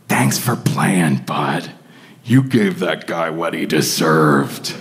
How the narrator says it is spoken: Ed leaned in and he whispered

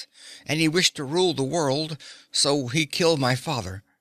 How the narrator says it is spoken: Evelyn said in a hard voice

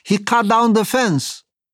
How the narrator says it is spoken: They were furious and shouted

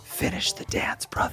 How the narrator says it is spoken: whisper

